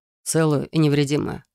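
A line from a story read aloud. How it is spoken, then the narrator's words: Wry snort. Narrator (Russian): хмыкнул он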